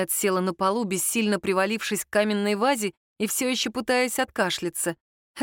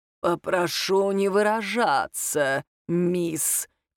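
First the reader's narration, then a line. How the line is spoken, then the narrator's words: Prim creaky voice. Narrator (Russian): чопорно проскрипел он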